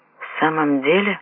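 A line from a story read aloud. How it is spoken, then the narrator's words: Muttered. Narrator (Russian): Пробормотал Анадера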